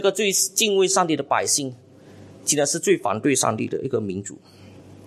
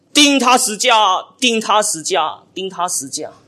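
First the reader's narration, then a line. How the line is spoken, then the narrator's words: Loud crowd chanting. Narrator (Chinese): 他们大声的喊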